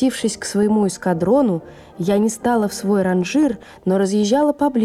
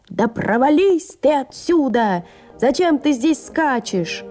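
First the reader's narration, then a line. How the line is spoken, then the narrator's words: Shouting sergeant. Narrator (Russian): вахмистр чужого эскадрона кричал на меня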